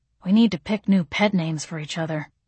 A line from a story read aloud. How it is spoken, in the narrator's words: he muttered